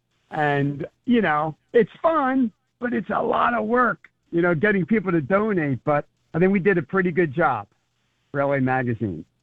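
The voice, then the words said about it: Worn, roughened voice. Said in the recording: “my voice got a little bit disheveled at that Concern Foundation event from doing the auction”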